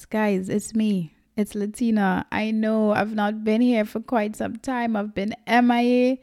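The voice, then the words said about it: Excited, upbeat voice. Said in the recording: “hear the excitement in my voice”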